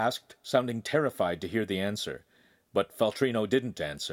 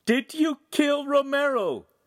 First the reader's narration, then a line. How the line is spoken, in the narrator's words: Julieta finally screamed